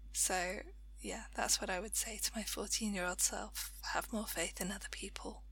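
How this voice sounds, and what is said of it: Hoarse, strained voice. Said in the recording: “I'm losing my voice a bit”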